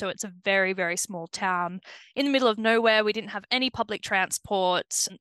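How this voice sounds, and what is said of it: Australian accent. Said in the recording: “you can tell even a few seconds into this podcast that you're not from these shores ... I feel like I've been working on my Aberdeenian accent, but it is pretty obvious that my Antipodean roots kind of shine through”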